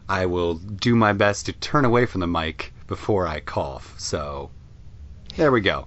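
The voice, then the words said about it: Congested voice from a cold. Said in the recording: “clearing my voice a few times here. I'm getting over a cold right now. If I sound congested”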